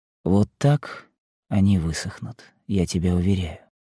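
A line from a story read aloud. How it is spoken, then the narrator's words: Quiet voice. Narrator (Russian): сказал тихим голосом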